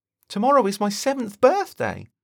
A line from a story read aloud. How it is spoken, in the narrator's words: Thomas happily exclaims